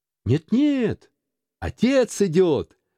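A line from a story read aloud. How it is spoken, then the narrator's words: Children shouting together. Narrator (Russian): закричали младшие Крэтчеты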